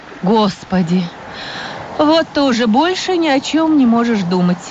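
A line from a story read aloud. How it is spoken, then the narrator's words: Sad mother. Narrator (Russian): печально сказала мама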